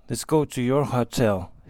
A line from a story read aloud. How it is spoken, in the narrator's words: he said softly